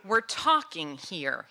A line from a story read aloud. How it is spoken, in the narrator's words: he growled